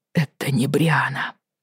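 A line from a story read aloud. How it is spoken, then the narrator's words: Muttering. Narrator (Russian): бормотал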